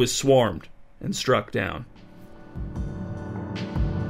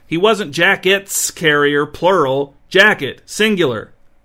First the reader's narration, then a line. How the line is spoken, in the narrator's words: Thickery tried to stop them by shouting